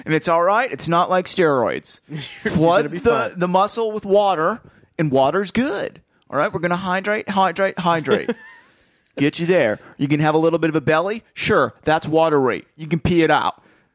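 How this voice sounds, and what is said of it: Put-on gym bro accent. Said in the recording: “what happened to your voice? Why do you have a weird bro accent?”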